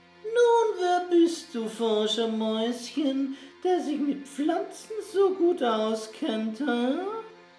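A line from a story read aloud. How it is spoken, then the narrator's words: Croaked. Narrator (German): krächzte Herr Graukopf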